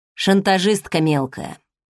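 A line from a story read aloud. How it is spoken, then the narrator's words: Gloomy reply. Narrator (Russian): мрачно ответил Седов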